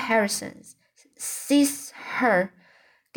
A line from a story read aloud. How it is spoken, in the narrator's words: gasped Anne